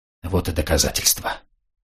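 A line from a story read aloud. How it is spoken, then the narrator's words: Whispered. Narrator (Russian): шепотом сказал Денис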